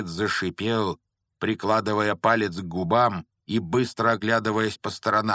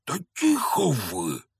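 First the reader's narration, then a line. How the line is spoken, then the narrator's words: Hissing. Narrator (Russian): снова прошипел Хагрид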